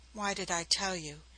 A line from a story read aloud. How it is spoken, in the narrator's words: she murmured back with subtler poetry